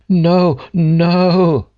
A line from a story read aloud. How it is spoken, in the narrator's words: gasped the wretched man